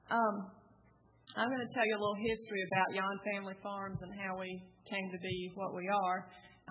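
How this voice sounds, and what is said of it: Southern US accent. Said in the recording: “We're all from the South here and on the panel, so I hope our accents have been easy enough for you to understand”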